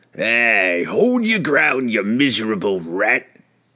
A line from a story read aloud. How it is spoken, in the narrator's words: it growled